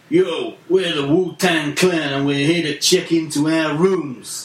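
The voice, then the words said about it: American accent. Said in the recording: “is that an American accent you have there, sir?”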